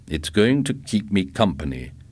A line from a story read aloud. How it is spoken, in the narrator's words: Milt Biskell said